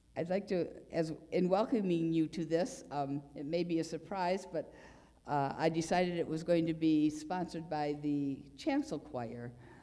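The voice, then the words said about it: Unusually low-pitched, sick-sounding voice. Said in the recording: “I'm starting to come down with something. My voice is about an octave lower than it usually is”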